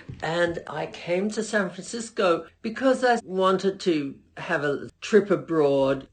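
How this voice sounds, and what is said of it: Australian accent. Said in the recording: “I'm Australian, as you can probably hear from my accent.”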